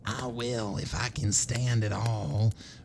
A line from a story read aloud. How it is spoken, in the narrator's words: murmured the other boy huskily